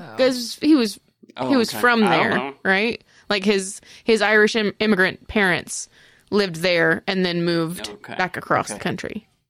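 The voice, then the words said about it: Southern US accent. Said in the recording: “I have never once made fun of another Southern state's accent because I have this.”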